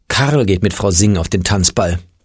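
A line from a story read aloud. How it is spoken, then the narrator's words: Sighing mother. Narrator (German): seufzte Oles Mutter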